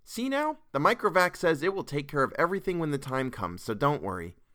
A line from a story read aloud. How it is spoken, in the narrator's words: said cheerfully